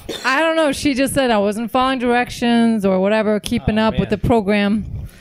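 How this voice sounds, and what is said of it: Long Island New York accent. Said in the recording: “Is that Jersey or Long Island? ... Long Island. That's what I'm hearing.”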